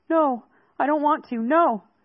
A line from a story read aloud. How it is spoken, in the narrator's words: Fairchild moaned